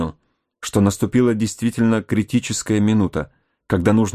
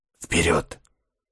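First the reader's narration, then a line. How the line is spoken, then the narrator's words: Whisper. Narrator (Russian): шепнул разведчик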